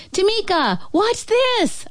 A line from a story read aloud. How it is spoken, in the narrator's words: I shout